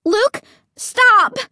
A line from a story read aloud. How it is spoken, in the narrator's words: I cried shrilly